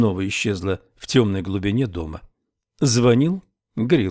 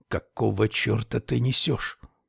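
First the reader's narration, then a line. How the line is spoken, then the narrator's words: Angry whisper. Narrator (Russian): Хови снизил голос до шепота и сердито произнес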